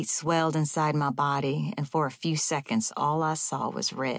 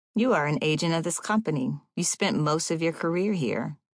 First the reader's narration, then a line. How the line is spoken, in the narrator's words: said, chuckling